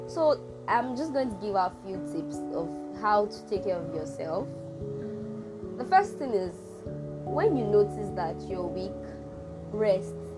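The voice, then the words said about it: Low, sick-sounding voice. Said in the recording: “my voice is sounding this low. I have been sick.”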